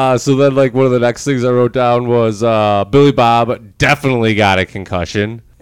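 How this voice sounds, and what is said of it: Usual voice. Nothing is said of it.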